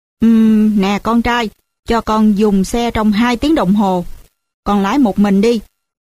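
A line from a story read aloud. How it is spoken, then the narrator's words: Father, smiling. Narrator (Vietnamese): ba mỉm cười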